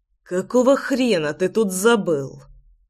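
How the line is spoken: Hissed reply. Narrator (Russian): прошипел я в ответ

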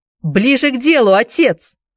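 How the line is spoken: Shout. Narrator (Russian): крикнул Энди

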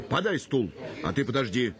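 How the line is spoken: Shouted. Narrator (Russian): крикнул он бабе

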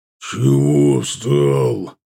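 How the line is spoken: Calm, booming, menacing-sounding. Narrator (Russian): Прогудела громада, причем совершенно спокойно, но из-за габаритов казалось, будто Ардан угрожает смертельная опасность

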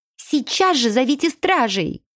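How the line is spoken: Furious shrieking. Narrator (Russian): визжала разъяренная Летта

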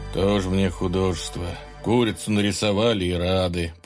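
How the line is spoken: Grumbling. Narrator (Russian): проворчал вождь

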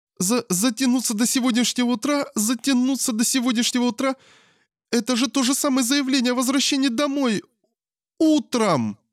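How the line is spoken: Terrified screaming mother. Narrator (Russian): Закричала мама так, словно ее перепугали до смерти

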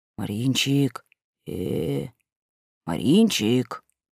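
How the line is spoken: Soft whisper. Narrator (Russian): Ванька тихонько прошептал

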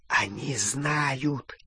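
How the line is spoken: Goblin whispering in ear. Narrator (Russian): зашептал крюкохват на ухо Гарри

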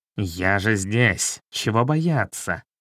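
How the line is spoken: Fierce, through teeth, cat. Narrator (Russian): Черный кот свирепо процедил

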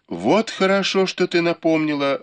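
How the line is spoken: Exclaimed. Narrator (Russian): воскликнула Ливань

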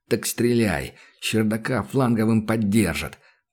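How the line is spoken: Hissing. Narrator (Russian): прошипел Данил

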